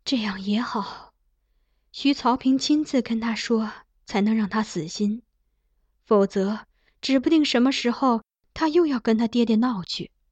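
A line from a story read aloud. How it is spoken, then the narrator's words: Sighing. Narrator (Chinese): 他叹道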